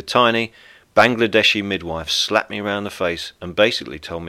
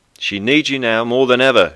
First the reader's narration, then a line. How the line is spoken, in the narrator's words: shouted